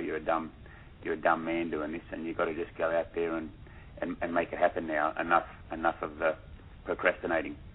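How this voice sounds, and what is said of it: Australian accent. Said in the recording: “I was born in the late '60s in Australia, and as you can tell by my accent, I was born in Sydney”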